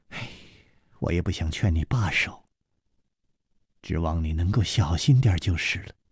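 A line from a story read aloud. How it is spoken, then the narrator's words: Soft sigh. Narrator (Chinese): 李红秀轻轻地叹了一口气说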